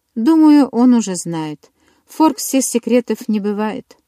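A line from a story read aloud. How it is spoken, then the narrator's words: Sigh. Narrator (Russian): вздохнула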